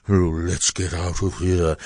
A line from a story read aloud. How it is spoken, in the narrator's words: He muttered